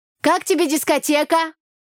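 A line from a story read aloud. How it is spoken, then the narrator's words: Shouting into ear. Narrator (Russian): прокричала я парню в ухо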